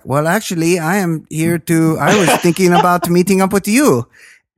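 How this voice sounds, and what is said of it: Spot-on put-on Russian accent. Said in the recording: “your accent? ... It's because it was perfectly spot on. ... I didn't know ... did Russian.”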